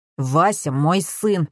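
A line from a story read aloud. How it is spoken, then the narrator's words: Mumbling. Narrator (Russian): пробурчал Юрий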